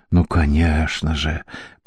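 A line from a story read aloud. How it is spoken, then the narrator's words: Whisper. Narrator (Russian): прошептал Гарднер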